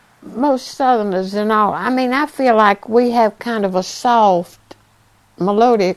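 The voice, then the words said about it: Old-time Charlotte Southern accent. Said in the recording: “that old-time Charlotte accent that's really getting more and more difficult to hear every year”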